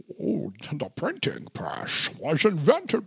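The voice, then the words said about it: Imitates another person's voice. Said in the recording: “Perhaps maybe by my Bane... I can't do it. I sound like Sean Connery.”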